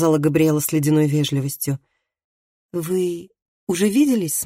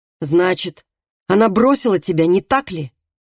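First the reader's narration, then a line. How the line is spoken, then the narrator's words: Sharp interruption. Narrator (Russian): резко прервал его Калеб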